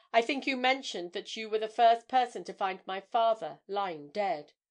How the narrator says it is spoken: observed Breton dryly

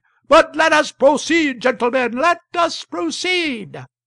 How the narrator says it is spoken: The chair hammered and hammered with its gavel, and kept shouting

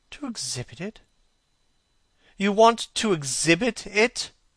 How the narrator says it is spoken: exclaimed Dorian Gray, a strange sense of terror creeping over him

